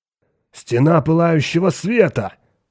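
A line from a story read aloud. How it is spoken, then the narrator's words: Exclaimed. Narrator (Russian): воскликнул Хоик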